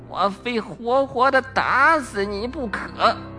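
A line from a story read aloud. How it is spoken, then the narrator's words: Through gritted teeth, furious. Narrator (Chinese): 咬牙切齿地说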